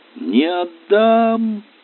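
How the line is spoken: Shouting. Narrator (Russian): кричала

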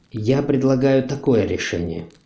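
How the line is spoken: Even, calm. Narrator (Russian): младший правнук говорил ровно и спокойно

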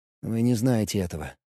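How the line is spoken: Quiet. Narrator (Russian): тихо сказал он

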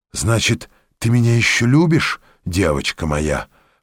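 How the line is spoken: Whisper in ear. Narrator (Russian): шептал Жорж на ухо Глики

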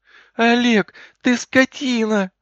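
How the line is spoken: Shouting. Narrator (Russian): закричала она

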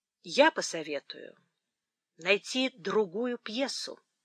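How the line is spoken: Said calmly. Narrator (Russian): спокойно сказал Эдмунд

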